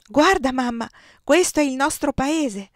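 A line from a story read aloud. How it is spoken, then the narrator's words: Child exclaiming. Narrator (Italian): esclamò il fanciullo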